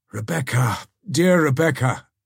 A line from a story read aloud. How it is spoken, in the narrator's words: exclaimed Ivanhoe